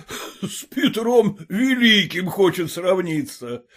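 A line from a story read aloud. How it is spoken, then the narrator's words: Venomous guffaw. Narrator (Russian): Ядовито захохотал Холмогоров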